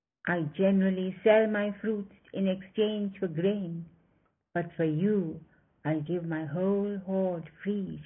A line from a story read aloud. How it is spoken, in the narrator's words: she said